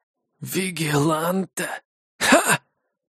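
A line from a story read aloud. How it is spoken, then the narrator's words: Cheerful loud laughter. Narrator (Russian): Линк весело расхохотался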